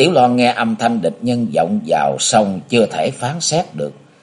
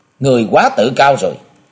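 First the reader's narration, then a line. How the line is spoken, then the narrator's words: Loud, displeased female voice. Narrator (Vietnamese): Nàng nhíu đôi mày liễu, lại lớn tiếng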